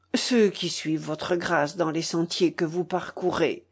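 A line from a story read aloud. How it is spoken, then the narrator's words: Low voice. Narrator (French): dit Waldemar, lui parlant à voix basse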